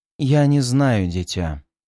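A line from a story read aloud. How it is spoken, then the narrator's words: Sorrowful sigh. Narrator (Russian): горестно вздохнула Самайна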